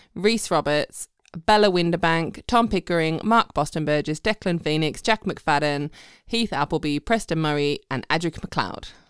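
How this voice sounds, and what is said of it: English accent. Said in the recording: “You got an English accent reading out your names”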